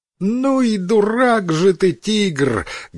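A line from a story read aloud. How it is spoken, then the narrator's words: Loud mocking laughing monkey. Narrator (Russian): громко рассмеялась обезьяна, оскалив зубы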